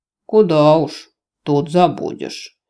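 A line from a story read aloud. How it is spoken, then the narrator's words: Snort. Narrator (Russian): хмыкнул Рос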